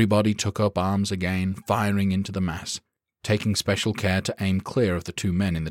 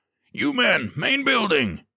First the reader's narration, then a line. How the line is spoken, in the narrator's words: he bellowed